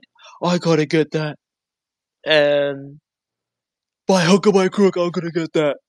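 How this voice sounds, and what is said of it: Imitates another person's voice. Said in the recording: “That was a Tibbs impression? ... Yeah, that was my Tibbs impression.”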